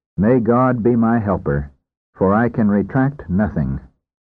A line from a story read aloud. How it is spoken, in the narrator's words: the doctor himself said calmly